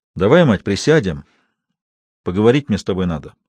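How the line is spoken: Calm tone. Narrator (Russian): спокойным тоном сказал Бастрыков

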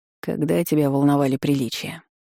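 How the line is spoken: Rector sighing. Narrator (Russian): Вздохнул ректор

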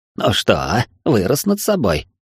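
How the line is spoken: Snide old woman. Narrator (Russian): ехидно спросила бабуля

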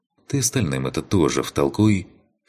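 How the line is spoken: Snorting remark. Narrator (Russian): Хмыкнул я

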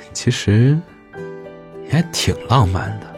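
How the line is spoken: Tender voice. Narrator (Chinese): 声音温柔

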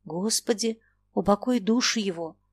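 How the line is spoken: Whispered repetition. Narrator (Russian): шепотом повторил Фома

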